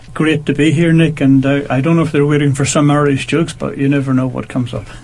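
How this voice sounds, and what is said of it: Irish accent. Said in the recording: “that very nice Irish accent.”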